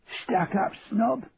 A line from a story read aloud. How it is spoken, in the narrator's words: Grandpa used to whisper in my ear